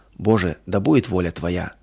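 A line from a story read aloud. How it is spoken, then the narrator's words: Heartfelt whisper. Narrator (Russian): От всего сердца прошептала она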